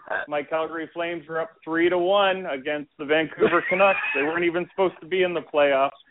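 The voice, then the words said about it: Canadian accent. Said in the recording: “you'll notice an accent because I'm Canadian. So if you hear any funny pronunciations”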